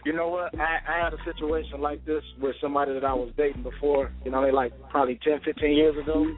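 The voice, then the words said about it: Country West Coast twang. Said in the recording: “I love your little West Coast twang ... That nigga got a country ass West Coast voice ... I like his twang”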